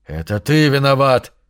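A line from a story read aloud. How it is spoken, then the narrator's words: Hoarse wheezing. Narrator (Russian): хрипел Родриго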